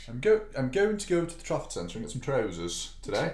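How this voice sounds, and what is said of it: Failed attempt at posh accent. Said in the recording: “That's not very posh, is it? ... Being from Wigan means I can't do a posh accent. I just sound like someone from Wigan trying to do a posh accent.”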